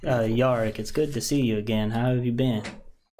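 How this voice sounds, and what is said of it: Deep voice with subtle southern accent. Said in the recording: “Deep... Yeah, it's going to be deep... It's just like a very subtle southern is kind of what I was going for... Yeah, it's good.”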